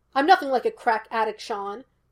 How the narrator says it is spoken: Gus snapped

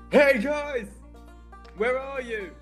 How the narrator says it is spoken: I'm just going to shout out mentally

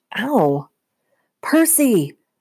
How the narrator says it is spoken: my mom shouted

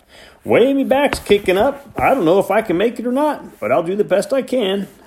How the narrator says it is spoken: Hank whined

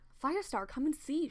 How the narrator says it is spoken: she exclaimed

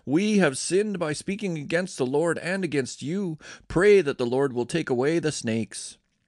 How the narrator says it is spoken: the people cried out

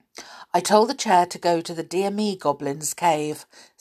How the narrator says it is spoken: said

